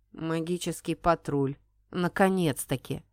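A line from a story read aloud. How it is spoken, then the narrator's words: Grim coachman. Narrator (Russian): мрачно прокомментировал кучер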